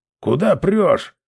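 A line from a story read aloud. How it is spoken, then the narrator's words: Guard barking. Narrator (Russian): рявкнул стражник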